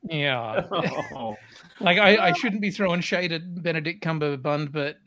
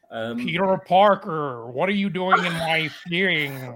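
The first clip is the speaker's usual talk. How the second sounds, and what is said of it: Benedict Cumberbatch impression, bad American accent. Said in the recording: “Use my Benedict Cumberbatch voice, but in a bad American accent. ... That is the bad American accent.”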